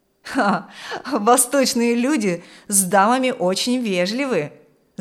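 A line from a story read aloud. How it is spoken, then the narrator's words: Laughing. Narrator (Russian): засмеялся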